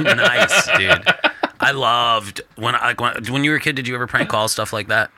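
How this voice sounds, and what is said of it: Usual voice. Nothing is said of it.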